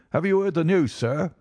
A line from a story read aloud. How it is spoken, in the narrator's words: he gasped